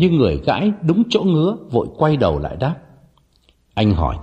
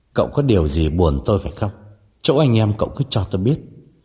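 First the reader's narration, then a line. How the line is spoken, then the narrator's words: Trembling question. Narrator (Vietnamese): Ông đành run run hỏi thẳng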